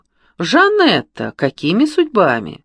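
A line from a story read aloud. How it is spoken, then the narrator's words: Exclaimed. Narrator (Russian): он воскликнул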